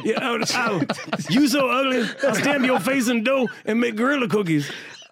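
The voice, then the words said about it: Imitates another person's voice. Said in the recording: “that was a really good Red Fox impression ... It was totally accurate.”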